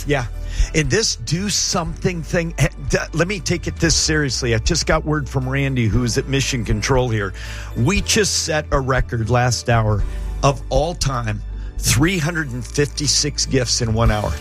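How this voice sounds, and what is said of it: Strained, worn-out voice. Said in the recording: “my voice is getting shot”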